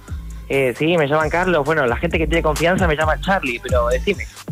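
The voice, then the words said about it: Put-on Argentine Spanish accent. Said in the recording (Spanish): “acento argentino”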